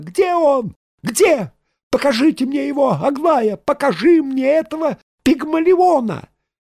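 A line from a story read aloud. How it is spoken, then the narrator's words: Shrill scream. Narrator (Russian): Она закричала визгливо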